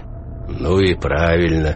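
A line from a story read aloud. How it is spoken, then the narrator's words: Deep bass voice. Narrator (Russian): басил кто-то в ответ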